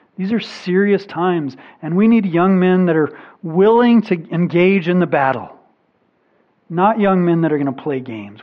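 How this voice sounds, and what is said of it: Urgent, earnest delivery. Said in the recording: “hear the urgency in my voice,”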